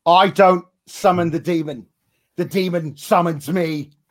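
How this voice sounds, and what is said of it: Imitates another person's accent. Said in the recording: “can ... do the Finn Balor accent a little?”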